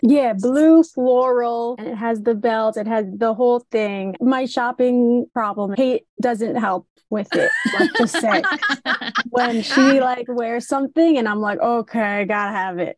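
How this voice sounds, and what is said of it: New York accent. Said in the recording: “I'm detecting a New York accent ... Your accent is incredible”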